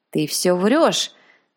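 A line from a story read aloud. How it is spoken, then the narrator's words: Old man growling. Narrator (Russian): зарычал старина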